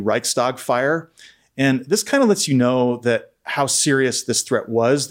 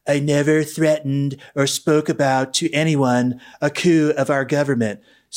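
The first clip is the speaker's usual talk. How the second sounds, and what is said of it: Donald Trump impression. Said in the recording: “my Trump impression ... I think your impression is pretty spot on.”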